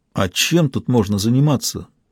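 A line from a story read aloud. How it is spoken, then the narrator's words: Strained. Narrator (Russian): сумел выдавить Макс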